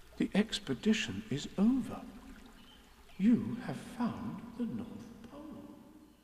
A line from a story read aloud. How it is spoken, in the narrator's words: said Christopher Robin solemnly